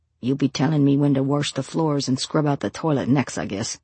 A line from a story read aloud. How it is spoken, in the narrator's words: he grumbles